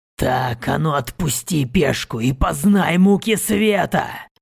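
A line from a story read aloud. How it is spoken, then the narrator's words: Hoarse voice. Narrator (Russian): хрипло произнесло тело жреца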